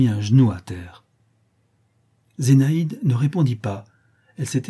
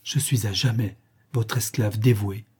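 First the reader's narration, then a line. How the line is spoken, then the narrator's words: Emboldened murmur. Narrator (French): murmura le prince, enhardi par l'occasion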